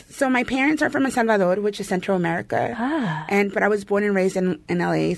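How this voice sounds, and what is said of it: Salvadoran and Mexican accented English. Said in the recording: “You have a beautiful accent. ... I have a lot of a mixture of a Salvadoran and Mexican accent because it's kind of what you get in L.A.”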